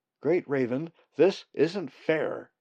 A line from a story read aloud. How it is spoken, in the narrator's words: he shouted petulantly